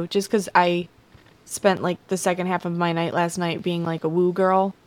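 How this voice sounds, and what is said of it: Hoarse, slightly deeper voice. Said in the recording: “I think my voice is a little bit deeper today, too ... I feel a little hoarse today. A little hoarse”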